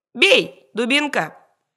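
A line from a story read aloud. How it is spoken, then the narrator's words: Old man shouting. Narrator (Russian): старик крикнул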